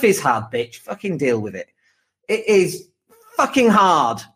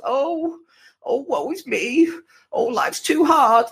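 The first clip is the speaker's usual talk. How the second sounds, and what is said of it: Whiny mocking voice. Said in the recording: “my whiny voice?”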